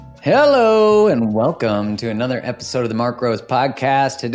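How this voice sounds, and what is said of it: Usual voice. Nothing is said of it.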